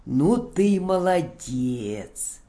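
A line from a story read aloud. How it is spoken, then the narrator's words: Admiring with rising growl. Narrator (Russian): восхитился он, но уже с невольно закипающим рычанием от вида этих наглецов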